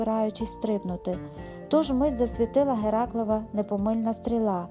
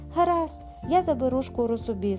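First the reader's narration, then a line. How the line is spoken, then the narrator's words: Calm. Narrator (Ukrainian): спокійно мовив Геракл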